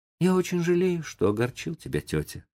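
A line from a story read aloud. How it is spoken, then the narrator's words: Thoughtful, remorseful. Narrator (Russian): сказал Том задумчиво и с раскаянием в голосе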